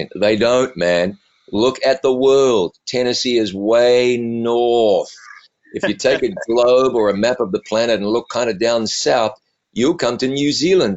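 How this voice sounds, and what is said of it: Softened New Zealand accent. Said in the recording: “I'm originally from New Zealand... my accent has been moderated over time. Raised in New Zealand”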